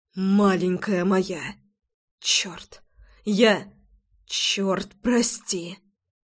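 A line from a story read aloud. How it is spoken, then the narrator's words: Anguished, breaking whisper. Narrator (Russian): Надрывно шептал Рома, словно ему отказала выдержка, а все тормоза окончательно сгорели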